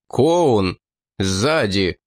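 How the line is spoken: Exclamation. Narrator (Russian): Лунгрен тотчас воскликнул

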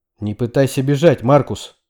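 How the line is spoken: Barked. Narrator (Russian): рявкнул я

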